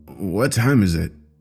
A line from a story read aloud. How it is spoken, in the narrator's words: mumbled